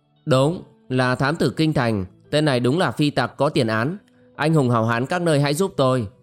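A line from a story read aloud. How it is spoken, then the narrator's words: Shouting. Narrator (Vietnamese): Quách Đại Lộ cũng la lên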